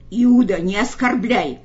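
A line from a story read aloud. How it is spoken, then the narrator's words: Furious growl. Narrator (Russian): прорычал Петр багровея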